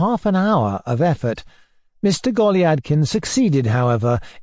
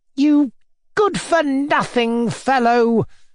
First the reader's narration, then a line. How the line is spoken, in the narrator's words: cried Mr